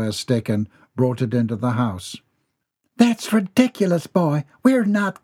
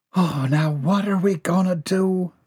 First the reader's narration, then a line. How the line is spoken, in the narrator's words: Bobby Sue sighed